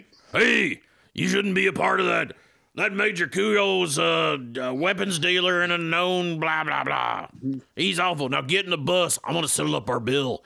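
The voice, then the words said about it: Imitates a character's voice. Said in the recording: “Can you do that voice?”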